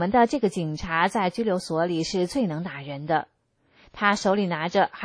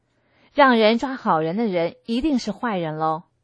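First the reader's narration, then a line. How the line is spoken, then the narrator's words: Laughing. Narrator (Chinese): 我哈哈地笑道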